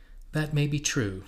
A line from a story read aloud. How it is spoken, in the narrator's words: said Reason gravely